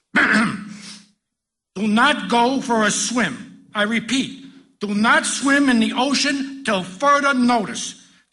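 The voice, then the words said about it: Loud announcing voice. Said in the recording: “in a loud voice”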